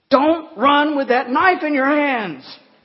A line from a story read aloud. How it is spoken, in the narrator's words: she shouted halfway across the base